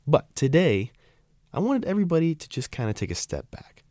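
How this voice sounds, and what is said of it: Hoarse, sick-sounding voice. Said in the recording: “Excuse my voice a little bit, I'm a little under the weather.”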